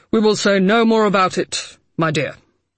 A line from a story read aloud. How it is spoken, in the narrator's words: Harding said, a little pompously